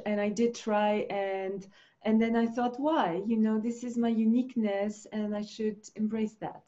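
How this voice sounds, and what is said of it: Speaks with a non-native accent. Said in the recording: “my accent is what it is, and it's not going to change”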